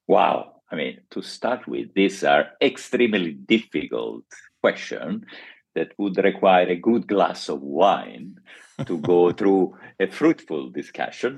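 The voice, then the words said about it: Italian accent in English. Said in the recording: “as you might hear ... from my accent, I'm not from Oxford or Cambridge. I'm from Rome ... being Italian by origin”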